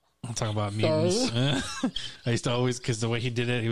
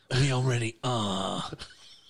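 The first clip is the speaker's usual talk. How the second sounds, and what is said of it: Deep throaty actor impression, jaw-heavy. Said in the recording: “My terrible impression of Michael Fassbender as Magneto ... he put so much jaw and throat to that”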